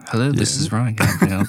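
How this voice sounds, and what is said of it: Put-on polished phone voice. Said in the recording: “I got a good phone voice.”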